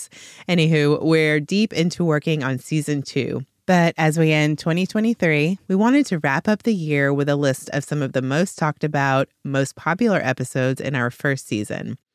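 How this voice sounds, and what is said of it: Voice affected by a cold. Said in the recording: “here with a little bit of a cold, so forgive the voice.”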